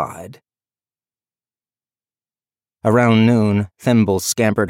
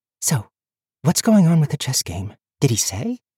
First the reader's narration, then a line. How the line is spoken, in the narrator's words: Tandry whispered